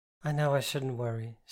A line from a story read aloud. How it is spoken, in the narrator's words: sighed